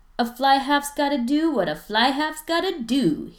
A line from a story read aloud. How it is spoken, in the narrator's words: he yells